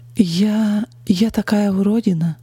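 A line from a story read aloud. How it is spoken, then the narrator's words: Hollow, forced, bitter. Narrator (Russian): наконец выдавила я глухим голосом и горько улыбнулась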